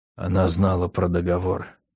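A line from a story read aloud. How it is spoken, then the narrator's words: Quiet voice. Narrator (Russian): негромко произнесла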